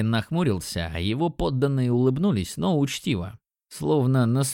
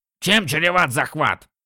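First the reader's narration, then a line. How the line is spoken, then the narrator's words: Abrupt. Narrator (Russian): Резко сменил тему Рорших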